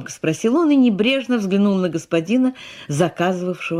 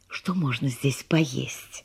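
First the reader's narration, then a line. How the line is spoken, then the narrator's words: Whisper. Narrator (Russian): шепнула она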